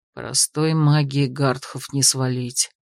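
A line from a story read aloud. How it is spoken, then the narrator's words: Quiet comment. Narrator (Russian): тихо прокомментировал Зор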